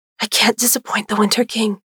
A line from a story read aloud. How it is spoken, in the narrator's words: she whispered, the fear in her mother's voice